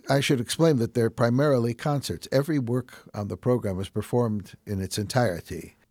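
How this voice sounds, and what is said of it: Chicago accent. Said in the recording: “with my Chicago accent.”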